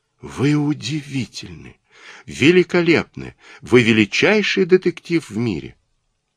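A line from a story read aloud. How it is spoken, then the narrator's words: Theatrical, after deep sigh. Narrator (Russian): она глубоко вздохнула и театрально произнесла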